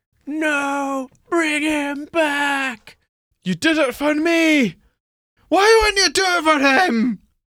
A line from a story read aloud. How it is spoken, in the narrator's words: You scream to the heavens